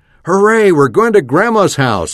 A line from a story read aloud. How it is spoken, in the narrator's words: I shouted